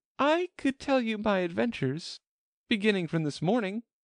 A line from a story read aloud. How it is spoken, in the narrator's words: said Alice, a little timidly